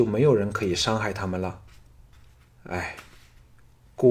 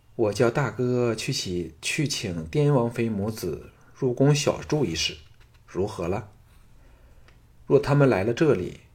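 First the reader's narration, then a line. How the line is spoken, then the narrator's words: Slow, deliberate. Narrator (Chinese): 李嫣嫣沉吟片场后，缓缓地说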